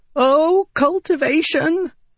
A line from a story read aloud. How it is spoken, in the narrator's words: Windel cried as they watched the assassin murder his way across the field